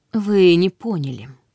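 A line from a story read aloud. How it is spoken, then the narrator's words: Soft. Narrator (Russian): мягко произнес Линк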